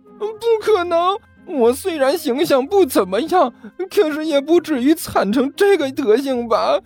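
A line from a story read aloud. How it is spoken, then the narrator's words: Woeful, whining. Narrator (Chinese): 刘阿八哭丧着脸说道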